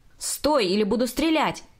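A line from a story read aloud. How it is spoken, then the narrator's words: Shouting. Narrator (Russian): кричал полицейский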